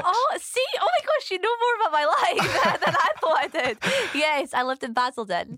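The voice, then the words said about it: Mixed South African and Scottish accent. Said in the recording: “I can hear a wee tinge in your accent. ... from South Africa. ... my accent's so varied ... I say different things that are South African or Scottish.”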